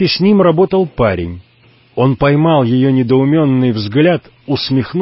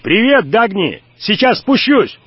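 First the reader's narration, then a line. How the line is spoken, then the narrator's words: Shout. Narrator (Russian): Уайт крикнул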